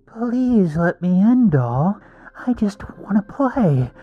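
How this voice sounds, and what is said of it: Creepy clown voice. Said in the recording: “creepy voice”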